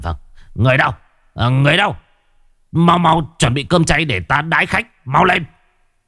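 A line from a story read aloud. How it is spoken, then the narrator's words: Old man's loud shout. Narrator (Vietnamese): Lão Hàn Thế Phiến quát to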